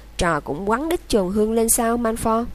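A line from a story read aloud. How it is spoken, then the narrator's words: Harsh sharp tone. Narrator (Vietnamese): Hermione nói giọng gay gắt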